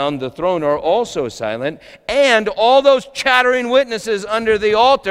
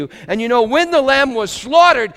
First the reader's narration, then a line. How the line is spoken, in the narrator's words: he cried out